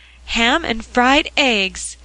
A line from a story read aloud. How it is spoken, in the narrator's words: exclaimed Mother Pepper, aghast